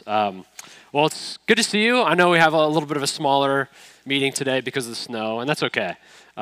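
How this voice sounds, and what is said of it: Congested voice from a cold. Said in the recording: “As you can hear, I have a cold ... I apologize that I sound congested, and it sounds worse than it is”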